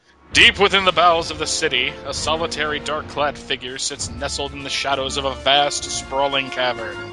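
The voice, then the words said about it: Imitates a narrator's voice. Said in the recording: “I'll try to do a good impersonation of the guy from that tape.”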